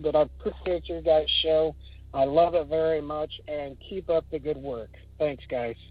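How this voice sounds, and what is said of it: Regional accent. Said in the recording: “somebody that's from my neck of the woods. I can hear the accent.”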